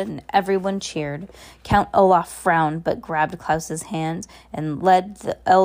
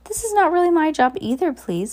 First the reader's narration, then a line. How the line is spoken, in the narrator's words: Madam Lulu protested nervously